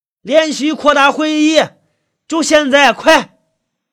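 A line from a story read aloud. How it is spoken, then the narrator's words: Loud shout. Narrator (Chinese): 支书对着人群大声喊了一句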